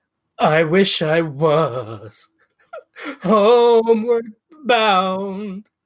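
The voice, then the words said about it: Justin Theroux as Kevin Garvey impression. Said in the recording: “this is my impression of Justin Theroux as Kevin Garvey doing the karaoke scene in The Leftovers ... Nailed it.”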